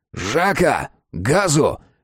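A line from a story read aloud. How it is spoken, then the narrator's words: Corporal barking. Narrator (Russian): рявкнул ефрейтор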